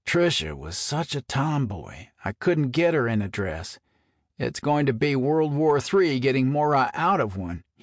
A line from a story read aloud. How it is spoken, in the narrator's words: groaned